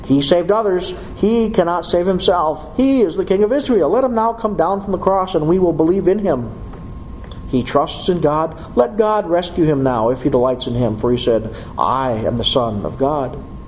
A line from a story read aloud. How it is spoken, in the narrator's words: the chief priests also, along with the scribes and elders, were mocking him and saying